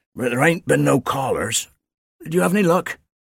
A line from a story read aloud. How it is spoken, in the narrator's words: he wheezed